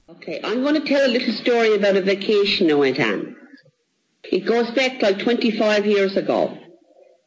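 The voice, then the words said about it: Newfoundland Canadian accent. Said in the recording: “guess that accent ... say where on the planet the speaker grew up ... If you guessed Newfoundland, Canada”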